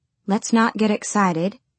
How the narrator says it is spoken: she said

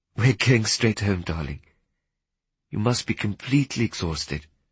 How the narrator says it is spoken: she said gently

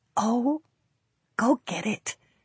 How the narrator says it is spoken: Melanie whispered

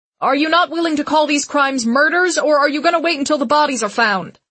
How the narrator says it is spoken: From the crowd, a reporter shouts

